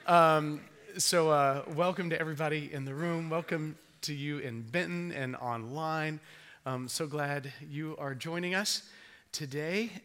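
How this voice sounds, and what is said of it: Strained, struggling voice. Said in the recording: “my voice is fighting me just a little bit ... if at some point, if it just goes out”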